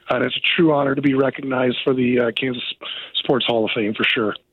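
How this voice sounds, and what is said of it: Canadian accent. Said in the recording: “you just sound Canadian”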